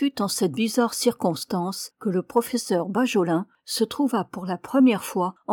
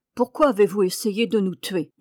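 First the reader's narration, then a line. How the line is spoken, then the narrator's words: Cold question. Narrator (French): demanda le professeur froidement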